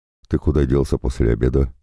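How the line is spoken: Plain. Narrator (Russian): спросил Арик

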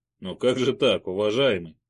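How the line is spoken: Quiet laugh. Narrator (Russian): тихо рассмеялся

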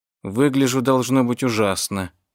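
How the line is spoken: Mumbling. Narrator (Russian): пробормотала она

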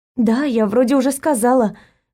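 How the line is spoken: Relieved exhale. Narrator (Russian): выдохнула я с облегчением

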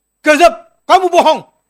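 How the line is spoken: Sudden shout. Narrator (Indonesian): Tiba-tiba ada yang satu teriak

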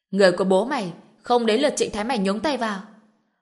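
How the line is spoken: Furious roar with laughter. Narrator (Vietnamese): Mạnh Nguyên Long cười lớn, phẫn nộ gào lên

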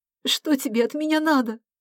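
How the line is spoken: Sob. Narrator (Russian): Вера всхлипнула

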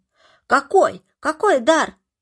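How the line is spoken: Crowd shouting. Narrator (Russian): закричали кругом

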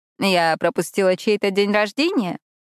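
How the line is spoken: Laughing. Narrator (Russian): Надя рассмеялась

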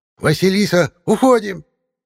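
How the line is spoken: Shouting from behind. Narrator (Russian): кричала за спиной Баба-Яга

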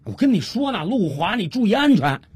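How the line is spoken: Anxious shout. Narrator (Chinese): 小五 心里急啊，于是他又接着喊了一句

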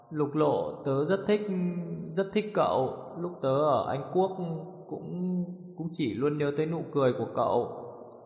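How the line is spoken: Stammering. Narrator (Vietnamese): Gia Minh lắp bắp nói

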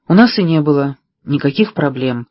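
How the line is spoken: Sighing. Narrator (Russian): вздохнул Питер

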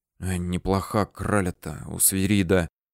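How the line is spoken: Young men whispering. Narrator (Russian): шептали 17-летние рабфаковцы

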